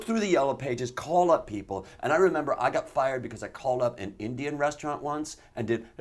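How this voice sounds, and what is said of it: Usual voice. Nothing is said of it.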